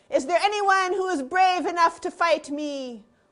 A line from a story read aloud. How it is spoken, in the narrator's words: called out